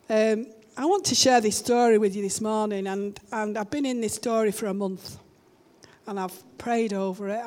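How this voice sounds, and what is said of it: Hoarse voice, sounds like a cold. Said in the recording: “I'm a bit hoarse because I've been singing my heart out. You can tell. Sound like I've got a cold”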